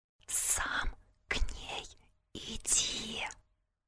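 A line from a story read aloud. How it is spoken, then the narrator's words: Eerie sinister whisper. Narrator (Russian): Инфернальным шепотом лорда Волдеморта озвучил свою идею Вадик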